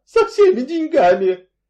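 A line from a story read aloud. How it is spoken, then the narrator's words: Bitter sobbing. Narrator (Russian): И снова горько разрыдалась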